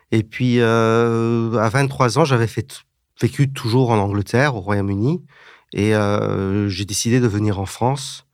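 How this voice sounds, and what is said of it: Slight British accent in French. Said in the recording (French): “j'ai un petit accent puisque je suis moitié français, mais aussi moitié britannique. J'ai grandi en Angleterre ... parfois, j'ai un petit accent.”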